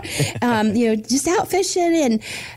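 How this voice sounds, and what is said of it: Put-on Southern accent. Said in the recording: “they had a Southern accent, so I have to bring that back out”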